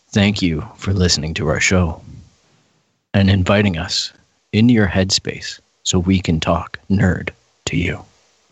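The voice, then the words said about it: Soft ASMR-style voice. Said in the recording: “ASMR voice”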